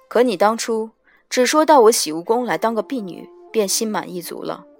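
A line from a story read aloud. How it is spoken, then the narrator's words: Cool, detached. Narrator (Chinese): 夜华眸色难辨，淡淡的看着缪清道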